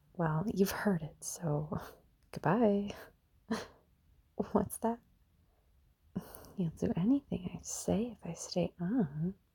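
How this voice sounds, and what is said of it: Sultry, quiet sexy voice. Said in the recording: “my sexy voice ... I've just gotta be very, very quiet”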